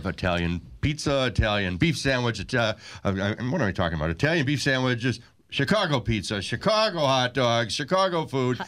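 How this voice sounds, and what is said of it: Chicago accent. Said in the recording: “the way you said it, you had a Chicago accent.”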